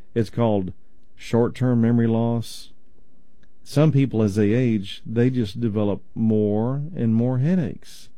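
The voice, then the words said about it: East Texas accent. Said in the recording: “my East Texas accent”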